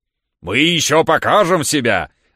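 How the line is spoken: Guffawing laugh. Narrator (Russian): захохотал Михаил Аверьяныч

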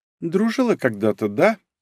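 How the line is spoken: Calm reply. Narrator (Russian): ответила Кагами спокойно

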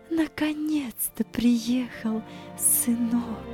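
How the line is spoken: Emotional whisper. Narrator (Russian): С волнением, охватившим ее, она прошептала

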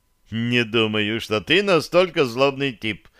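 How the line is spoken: Young man's ringing laughter. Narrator (Russian): звонко расхохотался юноша

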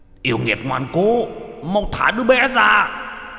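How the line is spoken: Demon guards howling. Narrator (Vietnamese): hai tên quỷ sai vẫn đang gào thét

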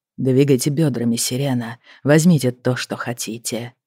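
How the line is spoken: Whisper in ear. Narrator (Russian): Он прошептал ей на ухо

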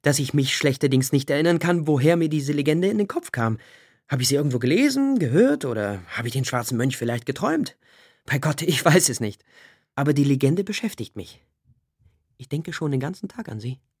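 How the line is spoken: Laughing. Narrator (German): lachte Corvin

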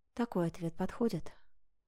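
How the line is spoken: Whispered. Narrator (Russian): шепнула

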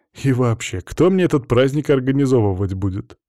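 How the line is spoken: Laughing. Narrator (Russian): Валерий рассмеялась

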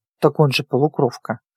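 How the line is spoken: Gruff mutter. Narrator (Russian): буркнул тот

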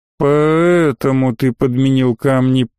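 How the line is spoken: Drawling. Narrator (Russian): протянул боцман

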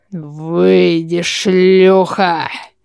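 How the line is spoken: Growl. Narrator (Russian): Прорычал он

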